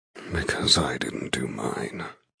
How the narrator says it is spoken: he rasps

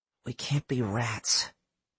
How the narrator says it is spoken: he muttered to himself

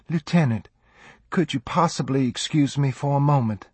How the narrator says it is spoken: Lucy said sweetly

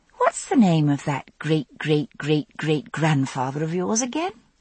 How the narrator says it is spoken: I asked

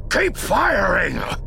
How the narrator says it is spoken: Captain Odava shouted to his bridge crew

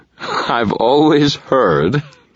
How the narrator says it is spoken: Thomas drawled, his voice loud enough to be heard by all, artfully projected

